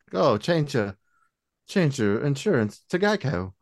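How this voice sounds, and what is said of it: Put-on British accent. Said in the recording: “he speaks with a British accent”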